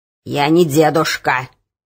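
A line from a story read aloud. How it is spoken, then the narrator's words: Angry snap. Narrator (Russian): сердито огрызнулся прохожий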